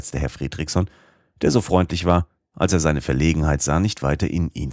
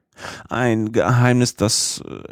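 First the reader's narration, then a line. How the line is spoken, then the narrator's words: Uncle stammering reply. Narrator (German): erwiderte stotternd mein Oheim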